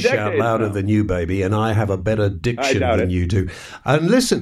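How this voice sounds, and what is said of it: Funny, pretentious-sounding accent. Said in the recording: “You just have a funny accent. It's more pretentious”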